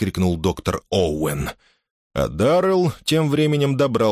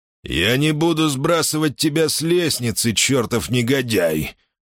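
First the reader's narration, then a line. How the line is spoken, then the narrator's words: Hoarse wheeze. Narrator (Russian): просипел Даррелл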